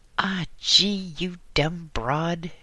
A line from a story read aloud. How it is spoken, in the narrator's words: shouted in exasperation